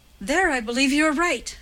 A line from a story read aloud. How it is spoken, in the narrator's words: said Gwendolen with a sudden little laugh